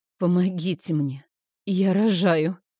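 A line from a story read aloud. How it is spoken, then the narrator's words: Breathless gasp. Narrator (Russian): Выдохнула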